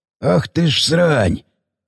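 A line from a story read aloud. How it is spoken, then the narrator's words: Hoarse breathed exclamation. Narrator (Russian): выдохнул сиплый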